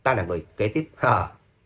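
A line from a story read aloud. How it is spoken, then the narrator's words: Laughing loudly. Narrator (Vietnamese): Khuê Lan lại cười to, cười nói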